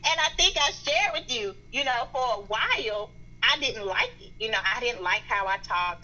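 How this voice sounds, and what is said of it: Strong Southern American accent. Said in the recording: “my strong Southern accent”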